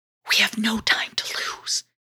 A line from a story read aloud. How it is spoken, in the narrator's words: she whispered